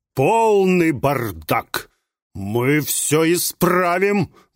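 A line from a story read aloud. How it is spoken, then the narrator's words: Menacing declaration. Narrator (Russian): грозно заявил Астарот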